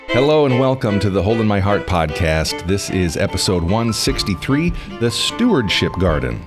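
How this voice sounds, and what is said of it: Polished professional radio voice. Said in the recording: “the most professional radio voice among us”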